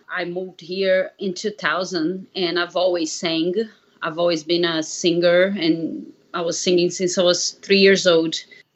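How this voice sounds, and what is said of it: Slight Brazilian accent. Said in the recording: “I'm originally from Brazil, so you might hear a little accent.”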